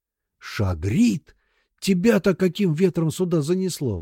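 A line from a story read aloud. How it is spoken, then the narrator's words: Exclaimed. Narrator (Russian): воскликнул Сомов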